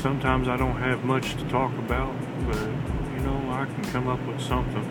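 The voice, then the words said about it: Southern American accent. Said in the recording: “if you hear Southern ... ended up with a Southern accent”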